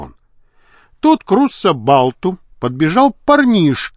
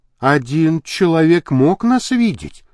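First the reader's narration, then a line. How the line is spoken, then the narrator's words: Uncertain. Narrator (Russian): неуверенно сказала она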